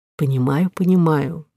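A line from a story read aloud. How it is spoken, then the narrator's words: Gentle doctor's voice. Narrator (Russian): мягко произнес врач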